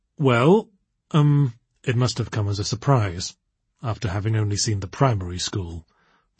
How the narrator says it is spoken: prompted Elizabeth, keeping her tone entirely emotionless

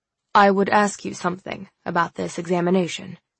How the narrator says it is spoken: Wolfric said grimly

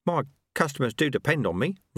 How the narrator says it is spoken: Ronnie Soak mumbled

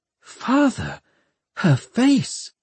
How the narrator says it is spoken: She gasped

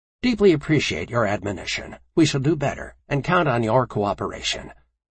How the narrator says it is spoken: Commander Kishi quickly responded

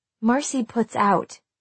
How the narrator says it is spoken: said V

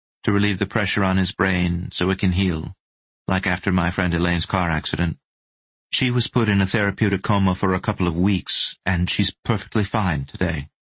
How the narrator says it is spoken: said Madeline evenly

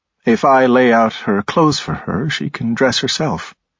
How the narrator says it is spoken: he said calmly

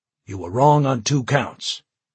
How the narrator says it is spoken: Washington snapped

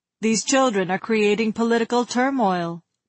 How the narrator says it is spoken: people around him were muttering

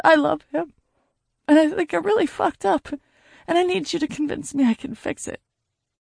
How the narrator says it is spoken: with tears streaming down my face and pain all over me, I choked out

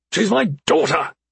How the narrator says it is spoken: Basin snapped

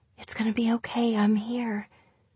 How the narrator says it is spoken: she … whispering

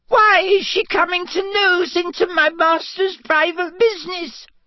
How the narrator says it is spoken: sobbed Winky

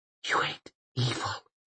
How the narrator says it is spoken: she whispered

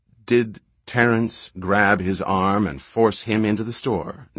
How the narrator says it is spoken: Nathan Locke asked slowly, precisely

